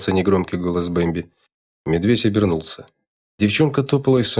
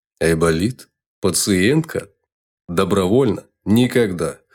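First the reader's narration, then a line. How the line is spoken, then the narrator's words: Chuckling. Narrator (Russian): хохотнул медведь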